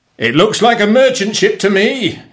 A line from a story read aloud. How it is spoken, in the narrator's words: shouted